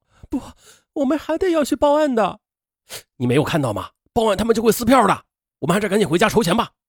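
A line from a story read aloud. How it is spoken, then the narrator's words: Just stopped crying. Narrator (Chinese): 邓玲玲止住哭声说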